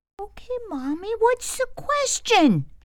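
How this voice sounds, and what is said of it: Frightened child's voice. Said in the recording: “in a frightened voice.”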